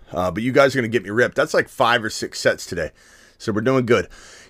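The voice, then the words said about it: Out of breath after exercise. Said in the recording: “my being out of breath will subside as I do it more”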